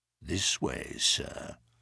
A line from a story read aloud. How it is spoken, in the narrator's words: said in a low voice